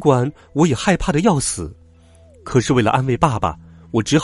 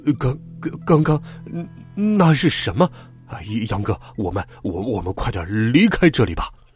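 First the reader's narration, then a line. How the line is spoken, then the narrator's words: Stammering. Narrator (Chinese): 爸爸结结巴巴的说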